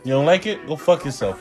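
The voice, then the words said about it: Exaggerated New Jersey accent. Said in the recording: “Jersey accent.”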